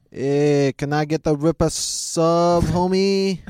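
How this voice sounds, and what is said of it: Put-on half Mexican, half Canadian accent. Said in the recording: “Please do half Mexican, half Canadian”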